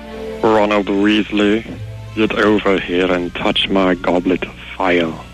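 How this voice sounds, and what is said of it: Professor Snape character voice. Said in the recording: “my impression ... Professor Snape ... that's pretty good”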